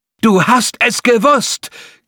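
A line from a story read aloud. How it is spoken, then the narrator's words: Shrieking. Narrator (German): kreischte das Affenhirn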